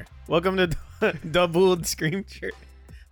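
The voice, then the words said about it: Vampire character voice. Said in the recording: “I'm going to do a Frankenstein voice this time... No, it's still going vampire.”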